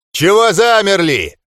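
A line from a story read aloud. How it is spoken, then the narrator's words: Furious grieving growl. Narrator (Russian): разъяренно прорычал Ндорк, только что потерявший старшего сына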